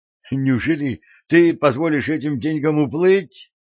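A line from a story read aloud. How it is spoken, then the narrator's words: Exclaiming. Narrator (Russian): воскликнул Дженкинс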